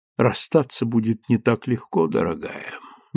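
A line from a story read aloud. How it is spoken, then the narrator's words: Soft. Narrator (Russian): мягко сказал он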